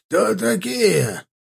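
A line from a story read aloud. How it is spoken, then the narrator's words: Hoarse voice, off to side. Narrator (Russian): раздался хриплый голос со стороны простенка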